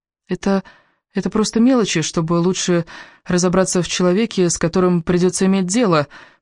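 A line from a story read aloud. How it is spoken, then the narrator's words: Uncertain, defensive. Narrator (Russian): пыталась оправдаться Элис, но ее голос звучал неуверенно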